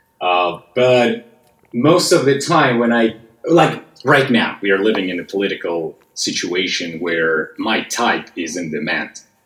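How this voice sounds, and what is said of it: Russian accent. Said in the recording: “I have a Russian accent”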